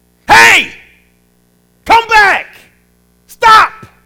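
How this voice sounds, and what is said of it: Loud raised voice, shouting. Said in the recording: “a loud voice ... raise your voice”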